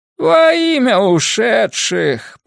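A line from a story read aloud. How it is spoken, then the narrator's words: Moaned. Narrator (Russian): простонал Примо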